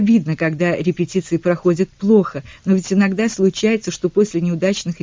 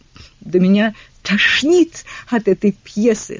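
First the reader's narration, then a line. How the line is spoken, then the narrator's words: Tearful shout. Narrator (Russian): сквозь слезы крикнула мисс Гейнсфорд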